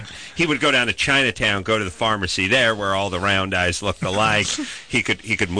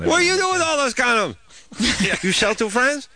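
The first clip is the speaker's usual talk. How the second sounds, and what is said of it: Put-on Chinese accent. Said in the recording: “that was was my impression of the Chinese shopkeeper”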